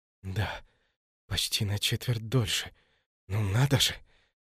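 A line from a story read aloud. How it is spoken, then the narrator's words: Astonished whisper. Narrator (Russian): пораженно прошептал Кассиус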